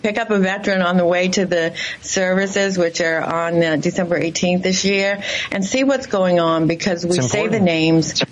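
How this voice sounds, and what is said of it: Massachusetts accent. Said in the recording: “I can get that from the accent. Sounds like you're from Massachusetts as well.”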